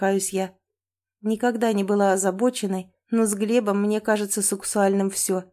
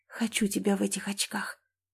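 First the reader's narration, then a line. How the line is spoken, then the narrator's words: Soft breathy. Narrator (Russian): тихо выдыхаю я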